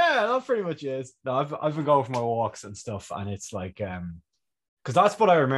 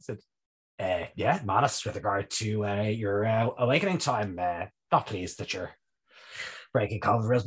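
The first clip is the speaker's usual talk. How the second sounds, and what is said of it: Imitates another person's voice, congested. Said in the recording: “It's not the best Leo Varadkar impression that's ever happened in the world, but it'll do ... You kind of sound like a Leo Varadkar with a head cold”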